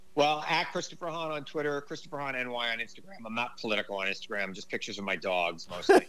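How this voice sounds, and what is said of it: New York accent. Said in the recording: “I love your New York energy. It's so very specific. It's so New York. And it's like you can just hear it in your voice ... this accent”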